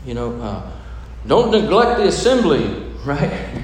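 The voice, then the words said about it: Put-on preacher voice. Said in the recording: “That's my preacher voice,”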